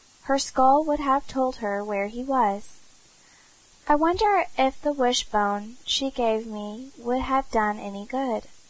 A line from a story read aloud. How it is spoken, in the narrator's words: cried Cecily suddenly